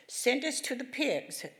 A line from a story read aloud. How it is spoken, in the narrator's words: begged